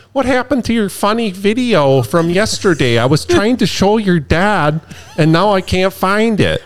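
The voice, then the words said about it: Exaggerated Minnesota accent. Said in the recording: “that accent? Because you've always done that accent when you talk about your parents ... It's probably not that aggressive, but you definitely can tell they're from Minnesota.”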